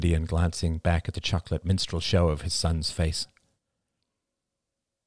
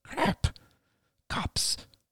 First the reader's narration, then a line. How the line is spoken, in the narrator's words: murmured, his voice thick with tension